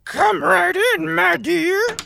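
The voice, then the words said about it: Wolf imitating old grandmother voice. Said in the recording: “The wolf was doing his best impression of Grandma.”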